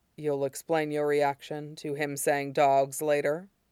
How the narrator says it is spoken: He asks, quietly enough that Jiang Cheng thinks he's not supposed to be able to hear them

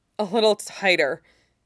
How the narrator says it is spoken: says, sounds like he's panting for breath

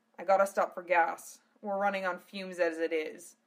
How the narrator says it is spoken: he muttered to Gowrie

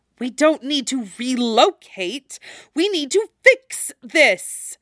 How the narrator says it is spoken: Zetsu hisses

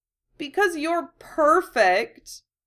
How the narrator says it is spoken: Llewellyn whines

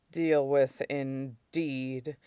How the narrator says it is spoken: Shidan said grimly

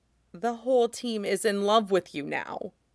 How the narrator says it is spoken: grumbles

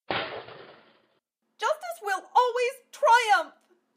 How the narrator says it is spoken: cried

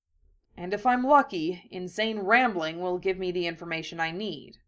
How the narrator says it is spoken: Harry said grimly

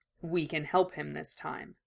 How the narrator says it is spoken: Roy said quietly

